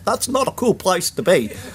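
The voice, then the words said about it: Put-on British accent. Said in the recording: “imagine him saying that in a British accent.”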